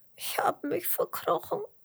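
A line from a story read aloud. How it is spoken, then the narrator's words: Sobbing. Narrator (German): schluchzt der Regenwurm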